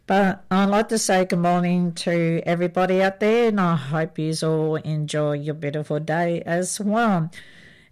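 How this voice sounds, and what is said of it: Slightly scratchy, itchy voice. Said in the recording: “My voice is still a little bit itchy”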